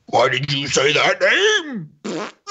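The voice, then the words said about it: Imitates another person's voice. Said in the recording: “my impression of Zack Snyder”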